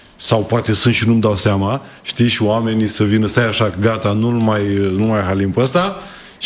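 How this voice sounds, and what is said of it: Slight Moldovan-tinged Romanian accent. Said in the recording (Romanian): “Ți-ai păstrat accentul, n-a plecat cu totul. ... Și este un farmec ... partea Moldovei ... avem o leacă.”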